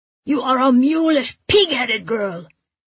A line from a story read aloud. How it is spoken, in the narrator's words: he yells bitterly after me